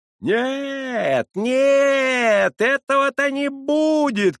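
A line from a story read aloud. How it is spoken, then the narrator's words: Shouting. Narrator (Russian): кричала Хивря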